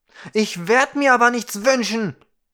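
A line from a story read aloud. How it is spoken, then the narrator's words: Roaring back. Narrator (German): brüllte zurück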